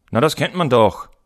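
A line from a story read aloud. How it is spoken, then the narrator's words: Boy calling out. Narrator (German): rief der Junge und setzte eine wichtige Miene auf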